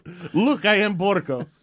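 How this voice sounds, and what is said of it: Borgo impression. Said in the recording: “my Borgo impression”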